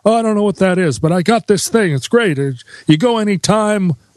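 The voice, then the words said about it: Imitates another person's voice. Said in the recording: “this impersonation”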